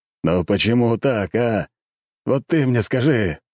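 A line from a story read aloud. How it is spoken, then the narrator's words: Wailing. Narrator (Russian): взвыл император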